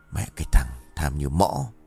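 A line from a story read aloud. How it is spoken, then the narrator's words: Grumbling. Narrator (Vietnamese): Kiên vẫn còn lầm bầm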